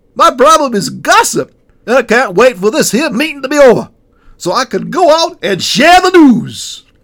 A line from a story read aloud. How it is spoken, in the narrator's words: the last pastor excitedly proclaimed